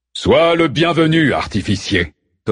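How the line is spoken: Thundering. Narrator (French): tonna Zeus

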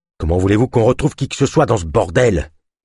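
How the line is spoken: Grumbling. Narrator (French): grogna Ava

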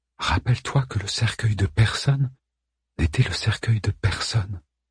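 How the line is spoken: Repeated in whisper. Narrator (French): répéta Ada dans un murmure

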